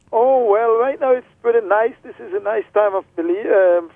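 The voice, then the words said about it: Heavy Belizean Creole accent. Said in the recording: “in the heavy Creole accent, which you'll hear, I think, in just a minute”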